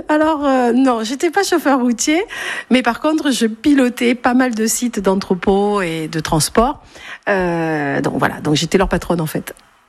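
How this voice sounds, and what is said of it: Marseille southern French accent. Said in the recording (French): “J'entends ça. Vous venez d'où alors ? ... je suis née à Marseille ... l'accent tout de suite donne envie d'aller à votre rencontre”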